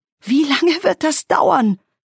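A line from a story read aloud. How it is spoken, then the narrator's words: Shout. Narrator (German): schrie sie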